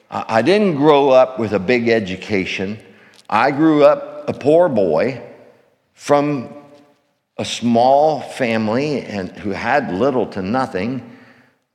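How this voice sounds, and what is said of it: Rural Pennsylvania redneck accent. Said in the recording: “I'm a redneck from Glen Rock, Pennsylvania, hence the accent.”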